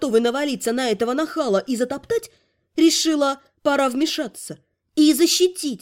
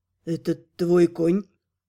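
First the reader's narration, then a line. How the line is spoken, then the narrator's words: Hoarse voice close by. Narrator (Russian): Хриплый голос раздался над моим ухом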